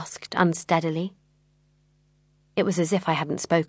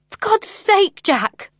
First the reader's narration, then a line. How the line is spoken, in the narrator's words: I cried